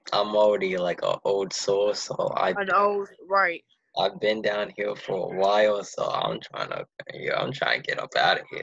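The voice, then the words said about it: Boston Massachusetts accent. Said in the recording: “I hear your accent. ... you do talk like you from Boston or something like that. That's what that is, Massachusetts.”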